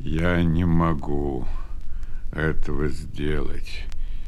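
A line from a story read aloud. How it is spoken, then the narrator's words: Sad. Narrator (Russian): печально отвечал Исаак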